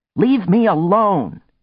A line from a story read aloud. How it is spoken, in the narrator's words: she shouted